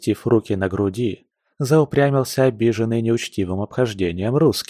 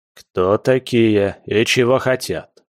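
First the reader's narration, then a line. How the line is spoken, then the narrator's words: Menacing master. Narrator (Russian): грозно зыркнул на полицейских хозяин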